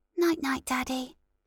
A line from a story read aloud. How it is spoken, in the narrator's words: heard her tiny whisper